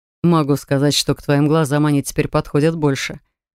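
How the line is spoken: Wizard's chuckle. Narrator (Russian): хохотнул чародей

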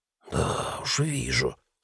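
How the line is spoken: Hiss again. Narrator (Russian): снова прошипел тот

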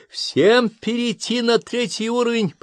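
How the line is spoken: Shouting. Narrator (Russian): прокричал Фердинанд

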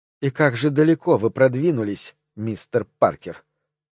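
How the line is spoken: Hissed. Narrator (Russian): прошипела миссис Кристи

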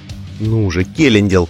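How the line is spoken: Whisper to herself. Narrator (Russian): прошептала она сама себе

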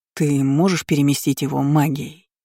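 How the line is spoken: Plain. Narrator (Russian): спросил Айнан

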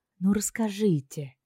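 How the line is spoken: Softer request. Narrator (Russian): более мягко попросила я

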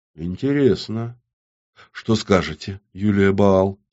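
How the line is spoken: Quiet question. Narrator (Russian): тихо спросил Зиновий

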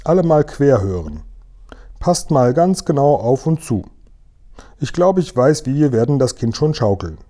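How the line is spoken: Calling out. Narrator (German): rief der Guri

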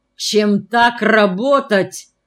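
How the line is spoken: Menacing. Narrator (Russian): грозно начала Ангелина Ефимовна

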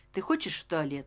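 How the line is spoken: Plain. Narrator (Russian): спросил я

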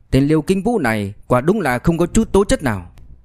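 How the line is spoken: Angry. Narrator (Vietnamese): Tiêu Minh Viễn tức giận nói

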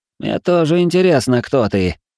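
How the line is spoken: Wry snort. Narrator (Russian): хмыкнул

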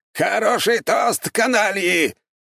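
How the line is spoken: Loud shout. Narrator (Russian): громко выкрикнул Аполлон Генрихович

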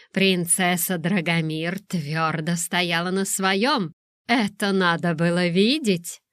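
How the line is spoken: Laughing. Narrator (Russian): Лиса рассмеялась

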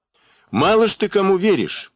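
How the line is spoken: Loud, angry jab. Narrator (Russian): поддел кто-то из зала, громко, зло

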